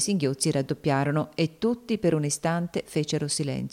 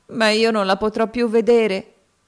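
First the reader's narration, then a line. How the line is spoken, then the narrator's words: Exclaimed. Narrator (Italian): esclamò Topsy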